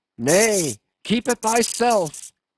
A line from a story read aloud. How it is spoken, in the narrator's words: cried Gabriel to Ahab